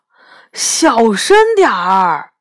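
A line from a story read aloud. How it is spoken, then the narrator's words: Loud shout. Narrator (Chinese): 我大声叫道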